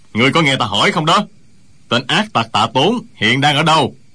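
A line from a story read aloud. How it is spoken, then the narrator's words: Angry loud shout. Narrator (Vietnamese): Tây Hoa Tử thấy Trương Thúy Sơn không trả lời câu hỏi của lão, liền nổi nóng, lão quát to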